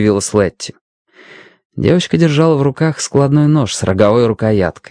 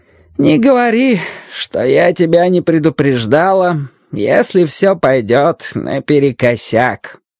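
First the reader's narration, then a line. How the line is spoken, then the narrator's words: Old woman grumbling. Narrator (Russian): проворчала старая миссис Хэмпсток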